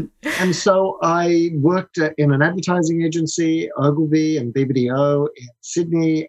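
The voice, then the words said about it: Australian accent. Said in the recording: “I'm Australian, as uh, you can tell by my accent.”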